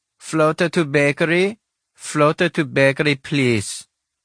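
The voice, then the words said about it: Woman's voice with Russian accent. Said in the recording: “The voice of a woman with a Russian accent crackled through the static of the dated intercom.”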